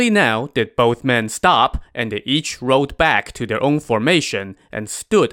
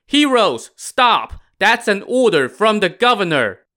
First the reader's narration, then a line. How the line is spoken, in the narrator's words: The flag officer shouted